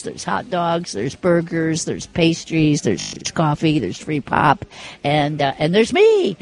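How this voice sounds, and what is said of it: Imitates another person's voice. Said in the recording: “my Mary Dew impression”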